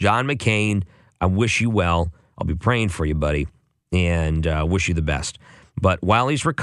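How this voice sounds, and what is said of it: Usual voice. Nothing is said of it.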